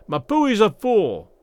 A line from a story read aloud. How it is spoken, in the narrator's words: was the answering yell